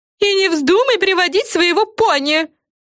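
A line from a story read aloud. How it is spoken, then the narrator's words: Screaming from inside dollhouse. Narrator (Russian): завопила из кукольного домика Френ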